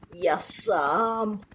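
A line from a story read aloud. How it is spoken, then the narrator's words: Groaning. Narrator (Russian): простонал пассионарио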